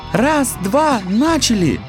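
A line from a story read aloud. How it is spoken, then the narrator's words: Shout. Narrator (Russian): крикнула Астра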